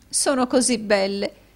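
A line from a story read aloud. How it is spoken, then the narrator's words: Sobbing woman. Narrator (Italian): disse la signora Kenwigs, singhiozzando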